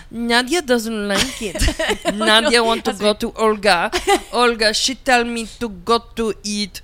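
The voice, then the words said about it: Put-on sultry Russian accent. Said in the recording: “I can't do a Russian accent. ... You can if you're doing the sexy sultry.”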